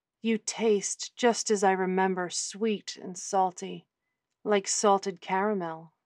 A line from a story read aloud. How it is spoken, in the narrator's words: Nicole murmured